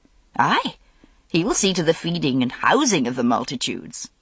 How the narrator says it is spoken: said Morgaine cheerfully

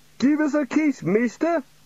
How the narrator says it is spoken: said a young man

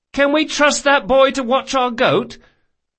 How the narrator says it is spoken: Locke cried above the din

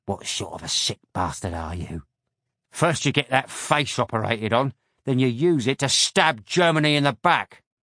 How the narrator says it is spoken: the second man hissed

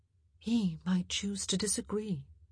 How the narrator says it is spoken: she said quietly

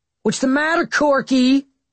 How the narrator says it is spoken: Someone shouted

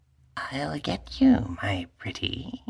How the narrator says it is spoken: murmured Anna in her best Wicked Witch voice

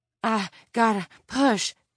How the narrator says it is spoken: Tiffany panted

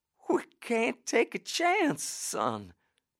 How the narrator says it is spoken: she sobbed

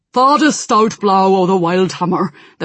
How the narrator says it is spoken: the first one said gruffly

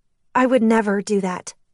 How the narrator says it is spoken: I said, although my voice faltered

